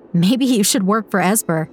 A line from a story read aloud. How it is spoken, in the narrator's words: he said, laughing